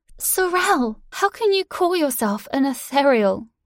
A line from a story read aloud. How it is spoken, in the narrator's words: shouted